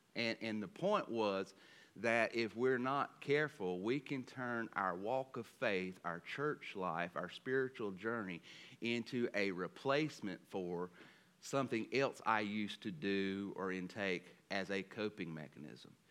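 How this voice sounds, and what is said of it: Southern American accent. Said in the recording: “my southern dialect and trying to speed up this accent”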